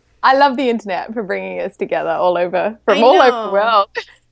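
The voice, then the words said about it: Australian accent. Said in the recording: “I love your accent. I just love your voice. It's so beautiful... you're from Australia... this really delicious, awesome accent”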